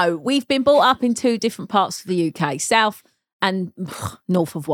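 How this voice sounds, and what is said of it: Usual voice. Nothing is said of it.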